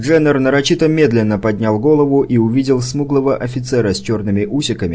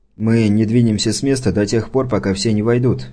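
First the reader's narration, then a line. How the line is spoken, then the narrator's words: Calm reply. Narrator (Russian): спокойно ответил Сирдженнер, выражая таким образом свое отвращение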